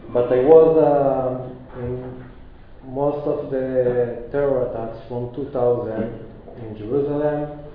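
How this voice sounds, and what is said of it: Non-native English accent. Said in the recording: “I'm not a professional speaker, especially not in English. You can hear my accent.”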